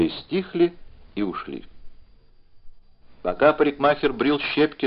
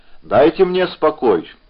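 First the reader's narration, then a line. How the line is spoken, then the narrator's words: Sudden angry shout. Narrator (Russian): неожиданно рассердился и крикнул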